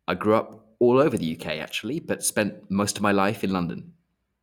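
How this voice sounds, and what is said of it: English accent. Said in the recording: “If you can't tell from my accent, I'm English.”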